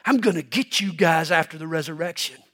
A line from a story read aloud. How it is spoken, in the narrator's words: he growled